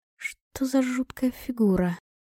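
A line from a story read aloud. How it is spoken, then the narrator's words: Muttered under breath. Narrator (Russian): пробормотала я себе под нос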